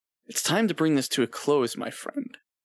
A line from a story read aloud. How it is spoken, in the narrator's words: the mayor said in a hushed, angry tone